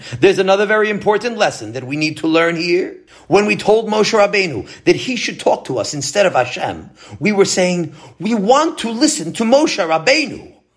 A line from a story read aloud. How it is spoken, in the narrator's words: exclaimed Rabbi Cohen